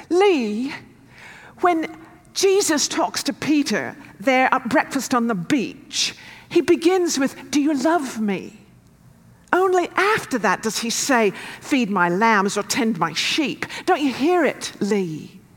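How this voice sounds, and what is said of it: Imperfect put-on South African accent. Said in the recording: “my South African accent isn't better”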